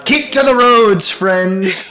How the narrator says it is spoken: He shouts from the top

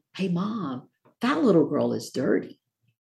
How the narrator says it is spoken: the little white girl whispered to the mom

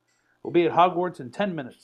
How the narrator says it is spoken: said Professor Lupin

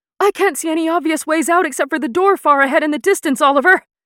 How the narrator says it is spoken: Iris yelled as she punched square into the chest of one of the half-giants trying to bring her down

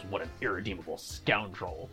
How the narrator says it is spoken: Zoro just mutters

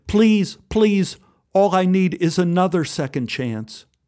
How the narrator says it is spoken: Robert cried hard and pleaded

